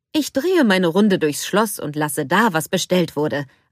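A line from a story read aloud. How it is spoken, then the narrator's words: Plain. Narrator (German): antwortete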